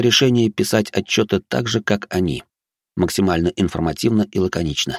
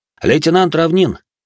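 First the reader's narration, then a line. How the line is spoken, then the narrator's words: Barked. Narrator (Russian): гаркнул Олег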